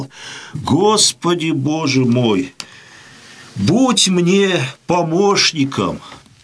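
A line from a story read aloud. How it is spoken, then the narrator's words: Quiet. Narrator (Russian): тихо сказал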